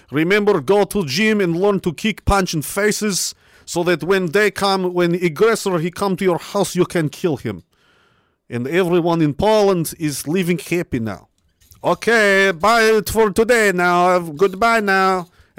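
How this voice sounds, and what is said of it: Put-on Eastern European accent. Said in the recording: “Was that even a Polish accent? It was some kind of Eastern European guy.”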